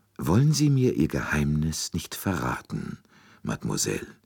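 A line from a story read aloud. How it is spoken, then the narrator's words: Very gentle, imploring. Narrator (German): Poirots Stimme klang sehr sanft, fast beschwörend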